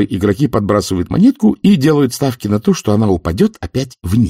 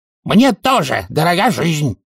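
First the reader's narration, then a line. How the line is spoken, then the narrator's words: Yell. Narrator (Russian): завопил Золт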